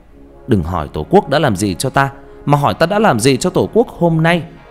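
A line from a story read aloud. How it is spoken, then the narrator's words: Shouting while running. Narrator (Vietnamese): Khánh vừa chạy vừa hét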